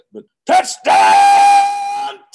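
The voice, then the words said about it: Screamed Mike Keith touchdown call. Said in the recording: “could you do a Mike Keith touchdown Titans impersonation? ... the screams are ridiculous”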